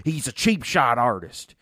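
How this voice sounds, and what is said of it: Imitates another person's voice. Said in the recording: “You do a really good AJ Styles. ... I'm really, like, legitimately impressed.”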